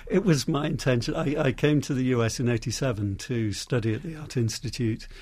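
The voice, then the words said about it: British accent. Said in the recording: “you're obviously very British and you maintain the good accent”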